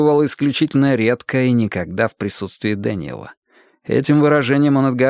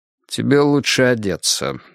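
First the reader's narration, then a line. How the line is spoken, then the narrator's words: Dry. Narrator (Russian): сказал он сухо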